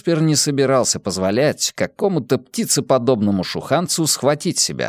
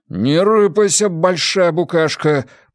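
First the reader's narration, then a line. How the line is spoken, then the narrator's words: Grumbling young man. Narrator (Russian): проворчал парень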